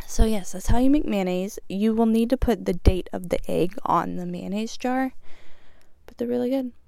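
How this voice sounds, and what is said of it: Out of breath, slightly sick voice. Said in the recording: “I'm out of breath, I'm still a little sick”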